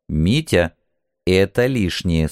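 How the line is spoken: Stern. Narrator (Russian): строго напомнил я

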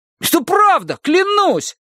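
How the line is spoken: Excited yelling. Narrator (Russian): возбужденно завопил Хилли

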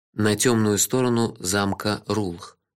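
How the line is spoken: Soft. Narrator (Russian): мягко сказал я

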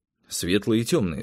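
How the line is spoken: Plain. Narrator (Russian): сказал я

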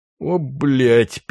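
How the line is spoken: Sad. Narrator (Russian): печально сказал Платонов

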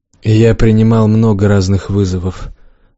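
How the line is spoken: Gloomy. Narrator (Russian): сказал мрачно

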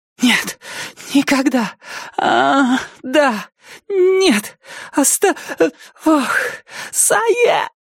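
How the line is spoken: Hoarse wheezing. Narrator (Russian): Хрипела она

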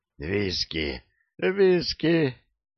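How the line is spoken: Hoarse wheeze. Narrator (Russian): прохрипел он

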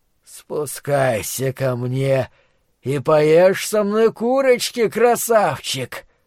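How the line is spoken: Cracked, dying whisper. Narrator (Russian): прошептала тварь надтреснутым, умирающим голосом

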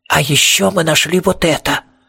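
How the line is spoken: Hiss. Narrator (Russian): Престон, который прошипел

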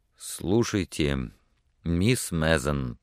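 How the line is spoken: Halting, then very rapid. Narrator (Russian): начал он медленно и запинаясь, но затем понесся с такой быстротой, что его с трудом можно было понять

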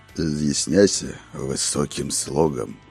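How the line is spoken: Quiet. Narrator (Russian): тихо проговорил Корт

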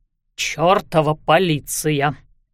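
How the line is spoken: Grumbling. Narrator (Russian): ворчал он

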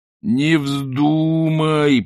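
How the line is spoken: Moaning. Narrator (Russian): простонал Ринсвинд

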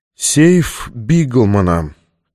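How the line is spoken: Drawl. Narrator (Russian): протянула Сьюзен

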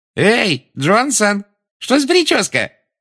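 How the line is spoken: Yelling from below. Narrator (Russian): завопила снизу Пенси Паркинсон

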